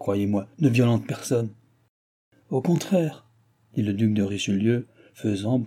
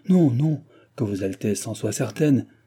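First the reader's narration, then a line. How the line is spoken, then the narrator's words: Hateful duchess exclaiming. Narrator (French): s'écria la haineuse duchesse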